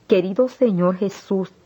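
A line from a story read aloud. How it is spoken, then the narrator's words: Exclamation. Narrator (Spanish): exclamé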